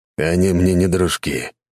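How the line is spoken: Disgusted snort. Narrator (Russian): брезгливо фыркнул Альберт

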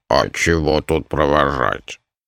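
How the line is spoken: Grumbling mutter. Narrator (Russian): проворчал Дримаронда

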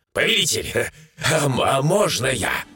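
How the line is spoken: Question after laughter. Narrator (Russian): отсмеявшись, спросил Сириус

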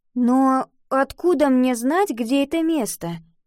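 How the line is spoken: Uncertain question. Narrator (Russian): неуверенно спросила Ива

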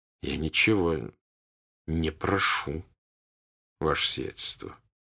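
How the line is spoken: Quiet. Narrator (Russian): тихо проговорил князь Андрей

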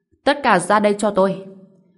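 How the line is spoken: Loud call. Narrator (Vietnamese): Lưu Dịch Phong cao giọng gọi

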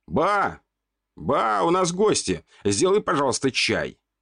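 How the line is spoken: Shouting. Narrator (Russian): крикнул я

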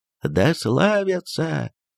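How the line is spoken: Many muffled voices in unison. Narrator (Russian): главы кланов многоголосо и глухо повторили

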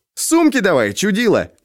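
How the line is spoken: Shouting. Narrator (Russian): крикнул он Алёше

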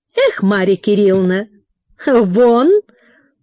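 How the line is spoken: Mocking with sigh. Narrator (Russian): насмешливо проговорила вздыхая

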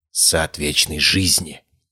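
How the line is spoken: Whisper. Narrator (Russian): прошептала Изабель

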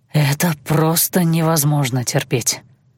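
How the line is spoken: Breathed against lips. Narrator (Russian): выдохнул он мне в губы

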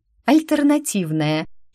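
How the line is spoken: Nervous giggle. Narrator (Russian): хихикнула я, понимая, что веселье нервное

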